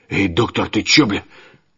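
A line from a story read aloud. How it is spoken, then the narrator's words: Wheezing. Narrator (Russian): Петро прохрипел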